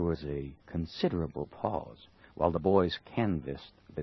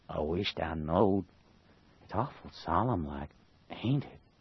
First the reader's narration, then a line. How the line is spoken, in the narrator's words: Huckleberry whispered